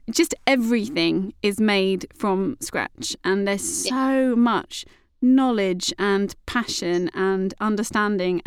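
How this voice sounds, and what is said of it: Speaks with a noticeable accent. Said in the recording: “is that a funny way to say it? ... Laughing at my accent,”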